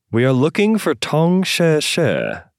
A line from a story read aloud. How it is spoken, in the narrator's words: Lei called out